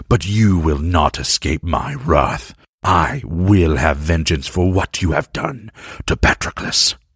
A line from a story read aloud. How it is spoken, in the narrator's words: Achilles growled